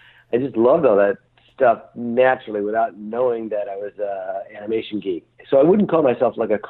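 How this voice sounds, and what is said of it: Usual voice. Nothing is said of it.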